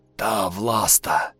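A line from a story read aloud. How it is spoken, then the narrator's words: Near whisper. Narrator (Russian): почти шепотом произнес слуга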